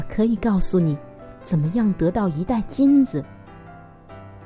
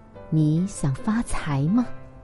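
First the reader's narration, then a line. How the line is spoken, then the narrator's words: Whisper. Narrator (Chinese): 奶妈在船夫耳旁悄声地说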